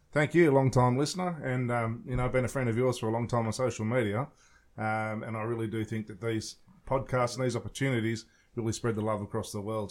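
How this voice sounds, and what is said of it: Australian accent, somewhat toned down. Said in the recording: “he is from Australia. You're gonna have to bear through his accent. Luckily, he's been in the U.S. for a few weeks now, so it's tamed down quite a bit”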